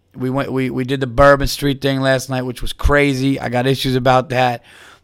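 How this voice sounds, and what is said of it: Hoarse, strained, fading voice. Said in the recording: “tell in my voice, I'm losing my voice.”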